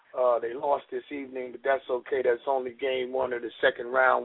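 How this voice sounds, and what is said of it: Slightly hoarse voice. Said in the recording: “excuse my voice. I think I got a slight case of laryngitis.”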